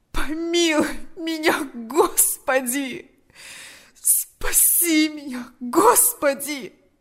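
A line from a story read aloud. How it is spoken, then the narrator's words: Moaning. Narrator (Russian): застонал он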